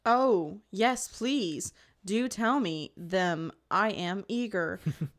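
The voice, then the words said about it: Sarcastic mock-eager delivery. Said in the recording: “That was sarcasm.”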